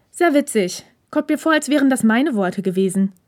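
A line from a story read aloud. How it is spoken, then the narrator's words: Dry retort. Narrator (German): gab Hirakawa trocken zurück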